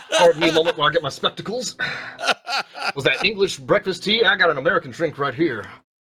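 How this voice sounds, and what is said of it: Put-on character accent. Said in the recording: “Uncle Sam ... will this accent hold? No, it will not.”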